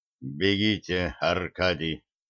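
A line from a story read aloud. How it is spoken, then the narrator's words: Dead, lifeless voice. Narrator (Russian): сказал Шорна мертвым голосом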